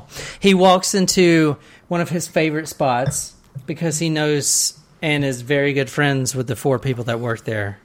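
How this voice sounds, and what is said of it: Southern US accent. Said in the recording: “You told me you didn't have an Dang. Accent?”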